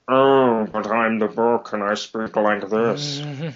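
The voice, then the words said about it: Put-on character voice for a book. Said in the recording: “I was also doing the character impersonation, so when the book was supposed to be talking”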